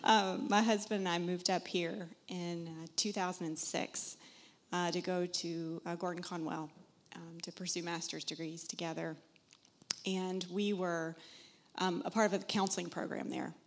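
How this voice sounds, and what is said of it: Southern US accent. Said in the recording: “You'll hear an accent. I'm from South Carolina originally.”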